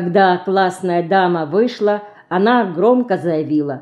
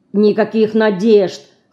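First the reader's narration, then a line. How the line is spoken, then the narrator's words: Grumbled. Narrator (Russian): проворчала Динка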